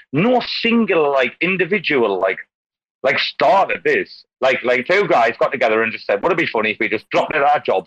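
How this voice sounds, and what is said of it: Speaks with a distinctive accent. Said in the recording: “I love your accent”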